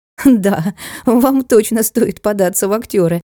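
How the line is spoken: Laughing. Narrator (Russian): засмеялась Маруся

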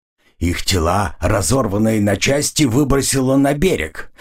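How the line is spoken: Creaky old voice. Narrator (Russian): проскрипел верховный шаман

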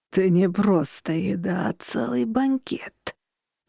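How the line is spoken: Moaning. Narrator (Russian): простонал

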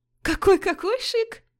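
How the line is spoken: Laughing. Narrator (Russian): засмеялась я

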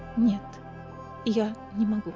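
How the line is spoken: Quiet. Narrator (Russian): тихо ответила Фейра

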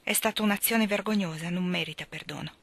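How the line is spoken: Brusque tone. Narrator (Italian): disse in tono brusco

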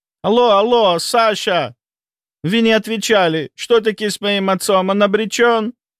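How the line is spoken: Shouting into phone. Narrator (Russian): прокричал в трубку Авраам Давидович

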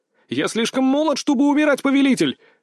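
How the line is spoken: Shout. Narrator (Russian): выкрикнул я

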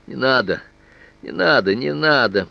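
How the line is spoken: Pitiful, repeating. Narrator (Russian): повторял он жалостным тоном

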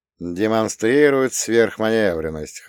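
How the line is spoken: Short chuckle. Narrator (Russian): хохотнул я

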